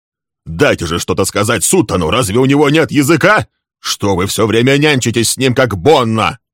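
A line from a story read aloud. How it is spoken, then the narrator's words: Shouted. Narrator (Russian): крикнул Лесли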